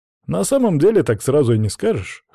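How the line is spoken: Smirk. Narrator (Russian): хмыкнул

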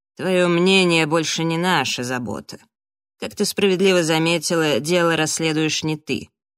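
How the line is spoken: Grumbling. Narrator (Russian): пробурчала Келли

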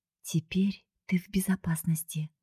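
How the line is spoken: Quiet, encouraging. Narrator (Russian): тихо подбодрила Скарлетт подругу

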